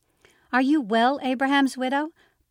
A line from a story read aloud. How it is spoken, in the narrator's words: Blanche shouted into my ear